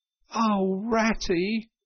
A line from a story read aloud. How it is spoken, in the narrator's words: he cried in despair, with tears impending